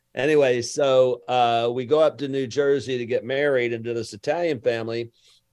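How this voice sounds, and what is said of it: Southern US (Alabama) accent. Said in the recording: “I'm from Lower Alabama... I have an accent.”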